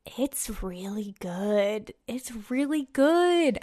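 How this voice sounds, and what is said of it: Whispering. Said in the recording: “I'm whispering that ... I don't know why I'm whispering.”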